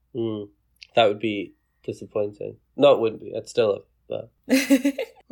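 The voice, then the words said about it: Scottish accent. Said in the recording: “has a fantastic accent ... Everyone loves an accent, especially a Scottish one”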